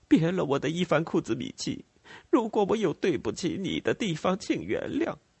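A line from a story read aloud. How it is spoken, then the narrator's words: Crying woman. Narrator (Chinese): 司令夫人哭着说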